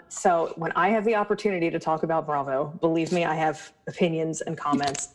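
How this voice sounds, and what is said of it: Abrasive East Coast accent. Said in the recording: “my East Coast accent is abrasive enough”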